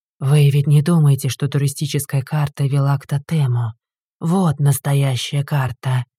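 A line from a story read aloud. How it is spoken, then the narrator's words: Serious voice. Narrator (Russian): серьезным голосом сказал проводник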